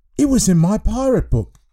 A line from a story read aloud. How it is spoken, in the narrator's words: exclaimed